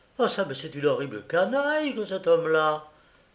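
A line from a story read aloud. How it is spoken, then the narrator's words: Young woman exclaiming. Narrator (French): s'écria la jeune femme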